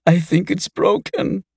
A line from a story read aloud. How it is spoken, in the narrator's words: sobbed